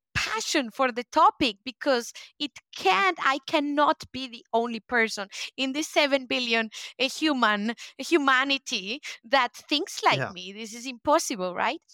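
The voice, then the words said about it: Spanish-accented English. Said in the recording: “my Spanish accent mixed with English”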